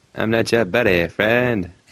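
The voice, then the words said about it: Bewildering Canadian accent, Terrance and Phillip. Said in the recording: “Are you Canadian? ... That was a bewildering accent. I'm not sure what that was ... I'm just Terrence and Phillip.”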